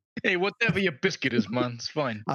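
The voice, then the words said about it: Irish-Italian accent, slightly Jamaican. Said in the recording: “can you say it like an Irish Italian accent? ... mon with a bit Jamaican at the end”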